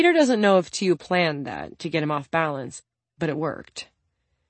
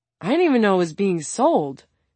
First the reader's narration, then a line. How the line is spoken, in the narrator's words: Peter exclaimed